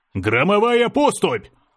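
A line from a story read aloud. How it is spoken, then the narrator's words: Battle cry. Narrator (Russian): закричал Искатель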